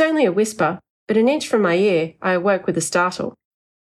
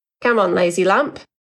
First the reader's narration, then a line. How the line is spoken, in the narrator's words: grinned